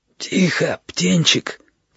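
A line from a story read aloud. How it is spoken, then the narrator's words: Wheezy rasp. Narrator (Russian): просипел он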